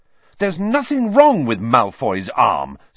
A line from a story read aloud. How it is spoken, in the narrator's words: said Harry furiously